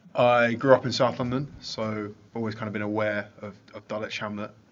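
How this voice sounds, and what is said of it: South London accent. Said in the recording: “Yeah, the accent gives it away.”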